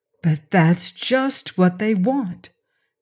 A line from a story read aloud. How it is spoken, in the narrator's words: Margaret exclaimed